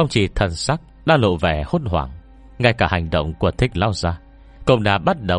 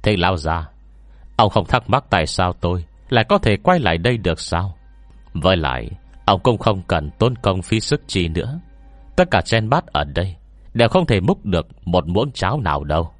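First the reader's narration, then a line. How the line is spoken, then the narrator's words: Cold. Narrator (Vietnamese): Tôi lạnh lùng nói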